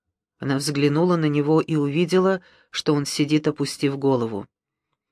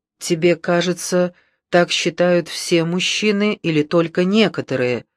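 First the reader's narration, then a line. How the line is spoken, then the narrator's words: Plain. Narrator (Russian): спросил он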